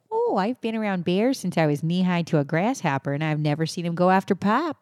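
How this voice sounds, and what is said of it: Put-on rural Canadian accent, somewhat Midwestern. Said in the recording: “how would I say that in a Canadian accent? ... It's pretty solid. ... That sounds more like middle of Canada. Like ... more ... rural. ... With like a little Canadian. Bit more, like some Midwestern was definitely in there.”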